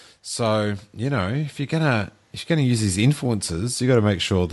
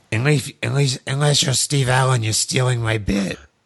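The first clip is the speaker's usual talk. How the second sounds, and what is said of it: Krusty the Clown cartoon voice. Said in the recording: “that is an excellent Krusty impersonation. ... That's really good.”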